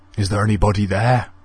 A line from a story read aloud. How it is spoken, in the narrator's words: he asked nervously